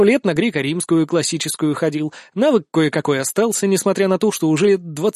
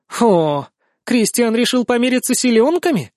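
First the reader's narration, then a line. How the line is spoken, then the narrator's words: Sudden joyful declaration. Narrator (Russian): заявляет вдруг принцесса радостно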